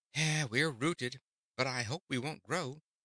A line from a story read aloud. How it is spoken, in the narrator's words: returned Trot with a sigh